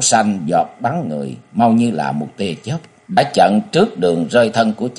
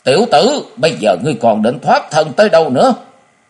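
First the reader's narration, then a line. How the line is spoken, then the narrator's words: Loud roar. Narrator (Vietnamese): Thất Hải Giật Tẩu gầm lớn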